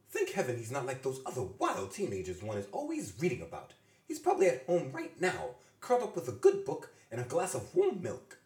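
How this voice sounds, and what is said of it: Bad posh British accent. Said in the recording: “I always do May as if she's in Downton Abbey. Well, my best impression of Downton Abbey... a little bit British, or at least bad British”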